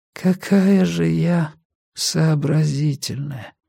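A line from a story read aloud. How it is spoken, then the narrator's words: Exhausted young woman's voice. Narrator (Russian): изможденным голосом ответила девушка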